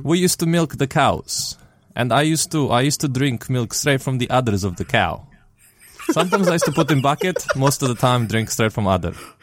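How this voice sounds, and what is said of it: Put-on Russian accent. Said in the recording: “With a Russian accent for some reason. ... for the rest of the episode, we have to speak with Russian accents.”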